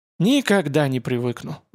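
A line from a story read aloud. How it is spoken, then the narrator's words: Sighing. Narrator (Russian): вздохнул Морозов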